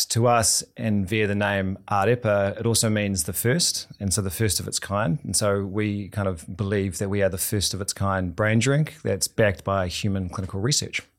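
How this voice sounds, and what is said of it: New Zealand accent. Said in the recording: “I got your accent. I see you're a New Zealander”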